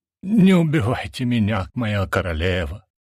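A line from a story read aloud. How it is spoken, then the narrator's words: Breathless wheeze. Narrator (Russian): прохрипел пытаясь набрать в грудь воздуха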